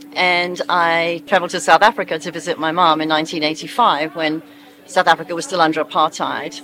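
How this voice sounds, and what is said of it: British accent. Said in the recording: “You can hear from my accent, I'm not from America, I'm British.”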